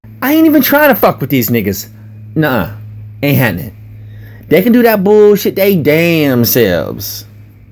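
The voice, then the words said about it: Mimicked street slang accent. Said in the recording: “said with a hood rat accent”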